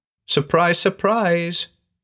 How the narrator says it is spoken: cried

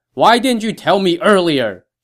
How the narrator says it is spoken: Zhang Fei replied, also very loudly

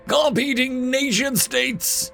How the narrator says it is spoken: Li Bao screams in fear

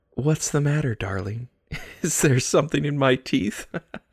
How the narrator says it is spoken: said before laughing like a mad woman

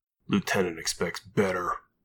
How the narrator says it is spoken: Thomas growled

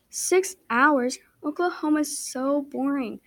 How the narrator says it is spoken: cried

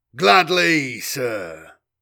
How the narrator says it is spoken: growled, grinning down, relishing the Adept's fear

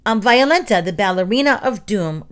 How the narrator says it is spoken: Roach said

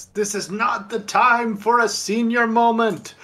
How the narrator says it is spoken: He kind of yells at the top of his lungs

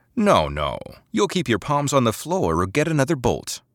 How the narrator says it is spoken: Basara said

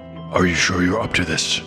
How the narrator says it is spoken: snorted the other dwarf

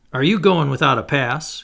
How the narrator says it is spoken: he cried out to me

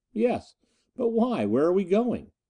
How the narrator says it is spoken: He laughed

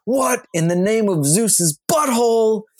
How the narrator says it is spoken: he yells

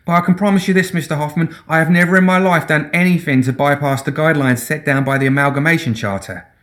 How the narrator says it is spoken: she pleaded

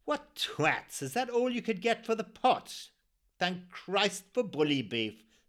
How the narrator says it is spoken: someone snapped

